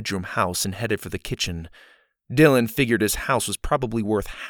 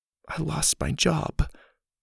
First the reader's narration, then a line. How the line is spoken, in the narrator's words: she whispered